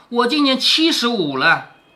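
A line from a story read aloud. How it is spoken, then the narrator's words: Hasty stern answer. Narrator (Chinese): 刘姥姥连忙厉声答道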